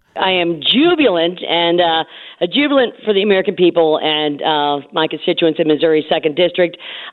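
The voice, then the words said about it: Hoarse, strained voice. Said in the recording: “I am hoarse because I have been I have lost my vote. I was whipping votes morning, noon, and night”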